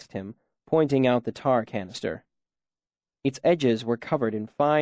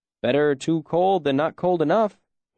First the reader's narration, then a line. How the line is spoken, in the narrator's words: he said with a humorless chuckle